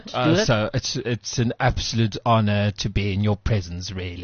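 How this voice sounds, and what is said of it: Slurred tipsy British, Boris Johnson impression. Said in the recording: “your slightly British accent, but slightly tipsy... So it's like you just slur a bit... like Boris Johnson... You sound like a gay cockney.”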